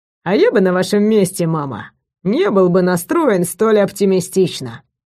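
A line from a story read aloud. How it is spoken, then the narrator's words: Smirking. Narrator (Russian): хмыкнул блондин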